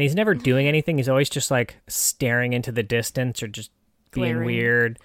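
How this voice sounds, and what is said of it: Usual voice. Nothing is said of it.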